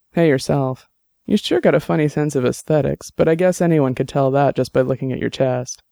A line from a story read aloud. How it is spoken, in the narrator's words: Dex chuckled and said